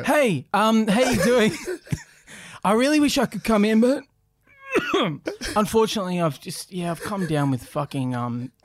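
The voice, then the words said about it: Faked sick, brave-sounding voice. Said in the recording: “I'd always make sure I was in the middle of a cough ... try to put on a brave voice”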